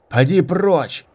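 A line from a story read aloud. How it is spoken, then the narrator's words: Shouted. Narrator (Russian): крикнул кто-то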